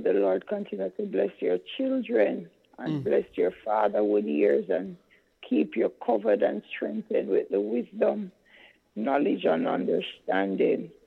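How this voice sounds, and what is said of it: Strained, compromised voice. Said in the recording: “My voice is very compromised.”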